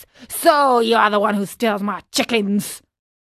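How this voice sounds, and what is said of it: Angry character voice. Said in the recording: “said the farmer in an angry voice”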